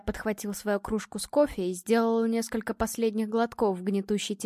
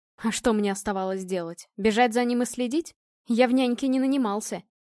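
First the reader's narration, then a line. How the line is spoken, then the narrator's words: Growled. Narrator (Russian): рыкнул Илья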